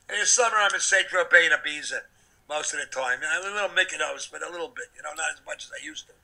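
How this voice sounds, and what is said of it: New York accent. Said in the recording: “I'm a New York guy. I talk with a New York accent”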